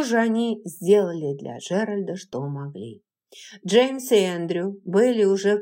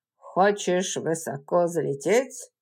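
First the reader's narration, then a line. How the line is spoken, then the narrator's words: Dry remark. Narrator (Russian): сухо заметил Эндрю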